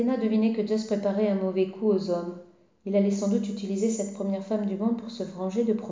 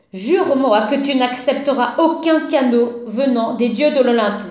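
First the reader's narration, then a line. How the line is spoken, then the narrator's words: Shouting. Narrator (French): lui cria-t-il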